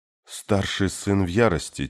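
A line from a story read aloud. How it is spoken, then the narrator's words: Quiet girl's voice. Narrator (Russian): тихо сказала девушка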